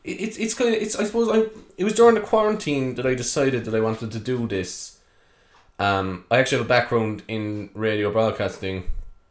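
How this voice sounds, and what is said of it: Irish Cork accent. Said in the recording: “if you haven't guessed by the accent already, I'm from Cork”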